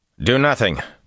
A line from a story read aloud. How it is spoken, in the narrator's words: Rand snapped